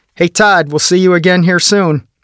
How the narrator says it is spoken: one of the guards called out to me

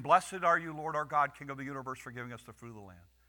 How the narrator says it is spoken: Jesus says

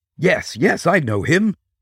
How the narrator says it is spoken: cried Gaspard

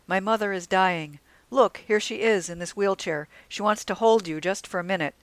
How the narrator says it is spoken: a man cried out

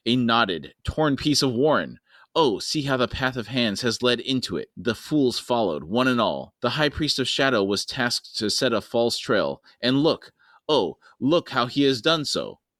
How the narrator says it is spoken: Pust hissed

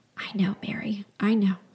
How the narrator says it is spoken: he whispered into my ear

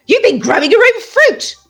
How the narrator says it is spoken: squealed

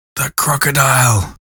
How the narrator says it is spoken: he gasped

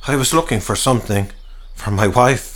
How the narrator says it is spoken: he eventually stammered

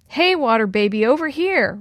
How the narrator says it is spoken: Ryan shouted to Chris

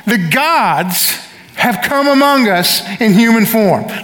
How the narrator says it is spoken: began to sing and shout

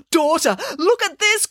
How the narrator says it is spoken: cried Midas

